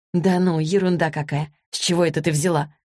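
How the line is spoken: Feigned indifferent question. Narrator (Russian): Как можно более равнодушным тоном осведомилась Злата

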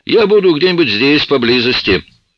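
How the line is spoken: Shouted call. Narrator (Russian): крикнул мне вслед Оуэнс

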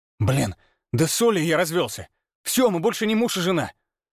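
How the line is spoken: Exasperated exclamation. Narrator (Russian): В сердцах воскликнул Ярослав

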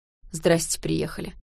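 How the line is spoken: Grumbling. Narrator (Russian): проворчал Стас

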